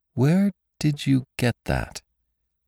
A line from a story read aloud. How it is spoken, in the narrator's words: asked Bess slowly